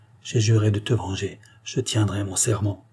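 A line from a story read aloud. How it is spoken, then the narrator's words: Low voice. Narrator (French): dit-il à voix basse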